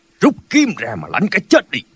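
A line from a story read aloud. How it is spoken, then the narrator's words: Shout. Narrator (Vietnamese): Thành Bất Ưu cũng đã quát lên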